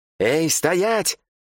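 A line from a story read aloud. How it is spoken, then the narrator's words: Yell. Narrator (Russian): заорал Дарра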